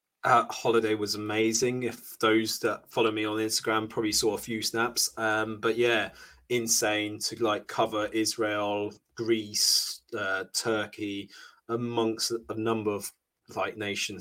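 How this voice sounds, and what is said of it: Slightly hoarse voice. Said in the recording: “You may hear that I'm a bit more hoarse at the moment because I am a bit unwell.”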